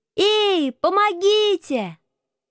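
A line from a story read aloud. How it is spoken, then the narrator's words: Prolonged shouting for help. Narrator (Russian): Прокричав так с полчаса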